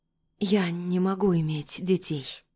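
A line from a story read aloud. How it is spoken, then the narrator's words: Barely audible. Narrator (Russian): произношу так тихо, что сама себя едва слышу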